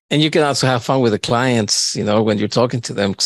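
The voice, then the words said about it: Speaks with a foreign accent. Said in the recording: “I know my accent is pretty sexy ... Well, I do have an accent”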